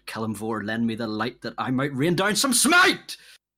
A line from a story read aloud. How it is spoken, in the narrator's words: shout out